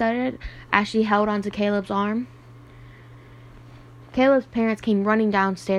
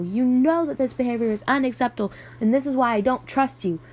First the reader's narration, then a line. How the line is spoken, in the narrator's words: Matt screamed over the phone